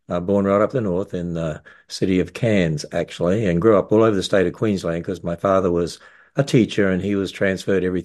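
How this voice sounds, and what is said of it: Australian accent. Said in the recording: “I don't have an American accent, even though I live in America. I have a down under accent because I was born in Australia”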